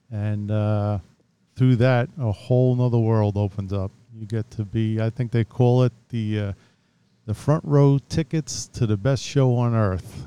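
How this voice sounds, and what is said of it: New York accent. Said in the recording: “if you can't tell from the accent, it's going to jump out. ... Based here in New York, and grew up out in Long Island”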